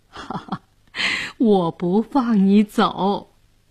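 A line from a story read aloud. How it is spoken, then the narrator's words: Laughing. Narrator (Chinese): 姑姑笑着说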